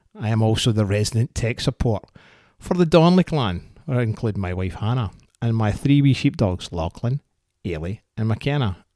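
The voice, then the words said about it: Scottish accent. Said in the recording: “this accent is not Canadian. It is 100% authentic, unapologetically Scottish.”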